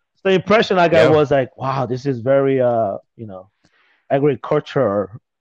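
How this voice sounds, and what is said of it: Slight foreign accent. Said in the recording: “I was pretty fobby back then ... I think I still have the little, you know, that Fabi accent”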